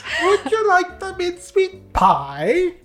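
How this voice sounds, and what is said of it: Put-on British accent. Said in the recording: “Is that really your British? ... That's my impression.”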